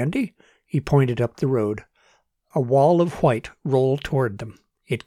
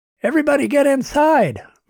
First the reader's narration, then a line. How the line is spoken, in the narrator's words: Martin shouted